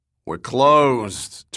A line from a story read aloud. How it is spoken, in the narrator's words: Turner growled